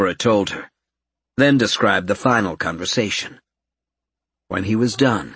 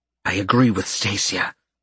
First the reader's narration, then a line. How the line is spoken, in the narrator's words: Karen hissed slightly in frustration